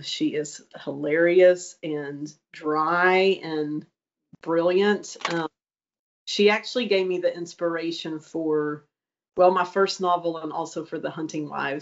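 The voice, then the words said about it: East Texas accent. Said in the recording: “Is that an East Texas accent that I'm picking up? ... Yes, very East Texas.”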